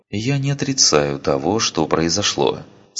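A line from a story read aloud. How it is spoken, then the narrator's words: Calm reply. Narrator (Russian): спокойно ответила Ария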